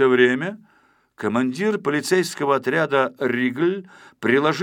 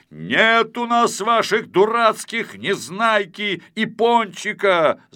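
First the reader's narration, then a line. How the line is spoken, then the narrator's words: Shouting. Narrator (Russian): закричал Ригль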